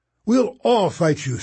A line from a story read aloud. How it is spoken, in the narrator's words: Sticky yelled